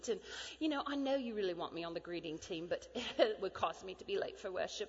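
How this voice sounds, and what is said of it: Put-on British accent. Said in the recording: “Why are you speaking in a British accent?”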